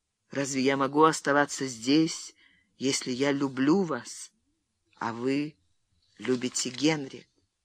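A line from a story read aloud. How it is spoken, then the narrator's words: Quiet reply. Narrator (Russian): Фрэнсис тихо ответил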